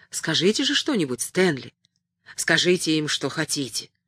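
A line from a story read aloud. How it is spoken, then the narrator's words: Low-voiced suggestion. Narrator (Russian): Джо вполголоса предложил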